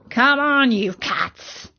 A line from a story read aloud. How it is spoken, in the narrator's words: growled the Anubis